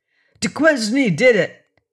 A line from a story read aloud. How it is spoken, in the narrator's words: he cried exultantly